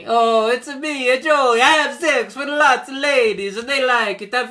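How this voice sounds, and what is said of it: Stereotypical Italian accent voice. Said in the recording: “he's doing a very much an Italian stereotype voice... the accent... the accent. Yes, voice.”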